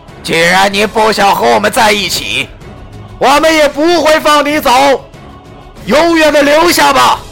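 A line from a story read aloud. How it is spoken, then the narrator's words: Shouted. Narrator (Chinese): 那团肉球对我喊道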